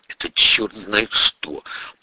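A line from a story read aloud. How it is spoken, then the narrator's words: Grumbling. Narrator (Russian): проворчал заместитель прокурора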